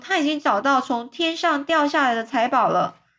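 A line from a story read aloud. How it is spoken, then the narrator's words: Loud. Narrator (Chinese): 他大声的对自己同伴说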